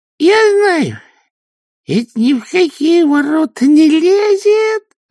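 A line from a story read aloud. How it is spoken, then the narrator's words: Joyful. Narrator (Russian): радостно сказал казначей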